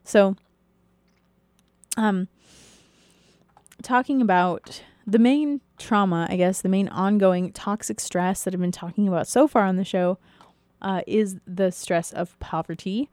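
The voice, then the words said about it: Strained, fading voice. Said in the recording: “I'm slowly losing my voice,”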